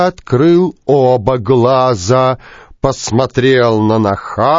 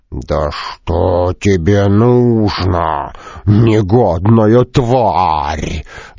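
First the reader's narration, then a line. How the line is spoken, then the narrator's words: Growling. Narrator (Russian): зарычал он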